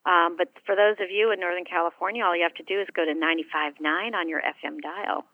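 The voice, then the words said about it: Smooth radio announcer voice. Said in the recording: “sexy radio voice”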